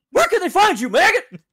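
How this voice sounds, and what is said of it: American drill sergeant voice. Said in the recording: “Is this your American impression? ... American drill sergeant impression?”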